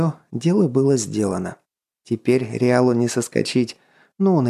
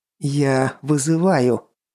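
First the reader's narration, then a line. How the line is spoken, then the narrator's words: Proud, slightly trembling voice. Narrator (Russian): гордый, слегка дрогнувшим голосом бросил Головин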